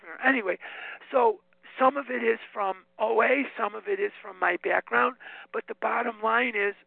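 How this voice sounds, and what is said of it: Voice giving out, strained. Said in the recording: “my voice is going.”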